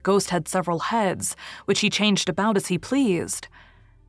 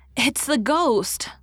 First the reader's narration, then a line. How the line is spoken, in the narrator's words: little Jameis had cried